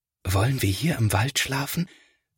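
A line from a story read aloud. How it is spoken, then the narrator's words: Quiet whisper. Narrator (German): flüstert Felix, denn er möchte die Tiere nicht stören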